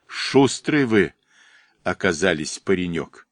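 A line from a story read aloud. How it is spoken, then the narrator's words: Calm old man. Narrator (Russian): спокойно проговорил дед Пахом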